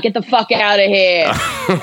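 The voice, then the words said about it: Angry Bronx New York accent. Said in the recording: “That's my Bronx accent going ... angry city accent.”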